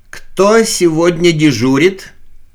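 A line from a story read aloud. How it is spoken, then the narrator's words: Timid question. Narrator (Russian): робко озираясь, спросил Усов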